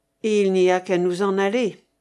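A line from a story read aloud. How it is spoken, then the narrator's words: Plain. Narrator (French): dit Valnet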